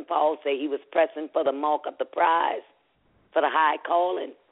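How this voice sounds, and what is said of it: Congested, stuffy-sounding voice. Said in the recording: “I do have a sinus infection. That's why my voice is sounding this way.”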